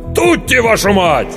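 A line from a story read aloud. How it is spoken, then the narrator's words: Commanding shout. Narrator (Russian): кто-то невидимый за спиной повелительно крикнул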